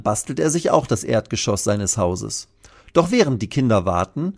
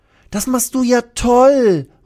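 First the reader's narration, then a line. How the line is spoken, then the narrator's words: Called, annoyed. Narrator (German): ruft Lilly, die sich ärgert, dass die beiden Dachhälften immer wieder runterrutschen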